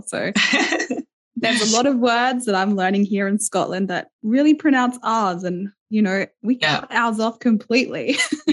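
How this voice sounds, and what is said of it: Australian accent. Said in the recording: “you might want to listen to her accent because she's not actually from Scotland ... I'm from Australia. I'm from the East Coast. You're going to be able to tell my accent. I'm a very dry country Australian girl.”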